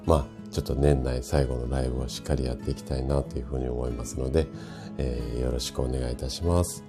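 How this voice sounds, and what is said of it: Hoarse, raspy voice. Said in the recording (Japanese): “声がガラガラな状態なので、お聞き苦しいかもしれないんですが”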